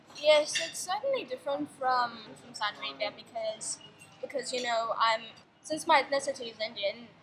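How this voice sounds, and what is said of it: Slight upper-class British accent. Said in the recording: “you're going to have a slight British accent right there. Upper class UK accent”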